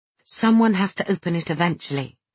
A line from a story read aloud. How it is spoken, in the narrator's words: I said quietly